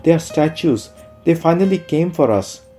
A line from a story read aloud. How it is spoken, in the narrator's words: Whatever color remained in the face of the hostess drains in a second as she exclaims